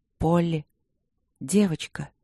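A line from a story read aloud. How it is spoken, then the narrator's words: Uncertain calling. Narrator (Russian): неуверенно позвала она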